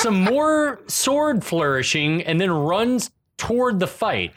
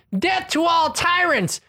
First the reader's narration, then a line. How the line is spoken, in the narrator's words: Tarn screams